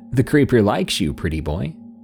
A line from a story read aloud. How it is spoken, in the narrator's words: I laughed and said